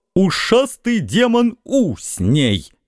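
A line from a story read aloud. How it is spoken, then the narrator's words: Barking roar. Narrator (Russian): рявкнул Кос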